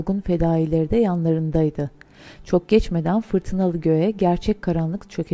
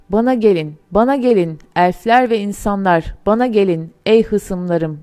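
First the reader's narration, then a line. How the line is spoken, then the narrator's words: Ringing trumpet-like cry. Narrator (Turkish): diye haykırışı ve sesi vadide borazan gibi öttü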